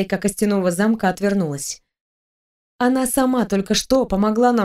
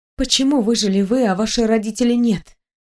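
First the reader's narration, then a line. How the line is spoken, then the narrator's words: Breathless exhale. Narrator (Russian): выдохнула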